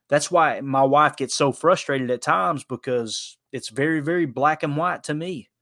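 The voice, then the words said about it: Southern American accent. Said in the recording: “this Southern hick and his accent.”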